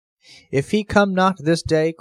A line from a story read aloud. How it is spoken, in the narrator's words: cried the rich man, rubbing his hands